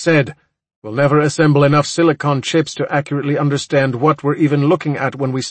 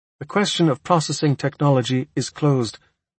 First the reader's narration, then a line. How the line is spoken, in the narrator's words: Oscar says quietly